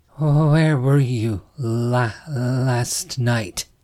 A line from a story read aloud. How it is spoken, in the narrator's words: Summer stammered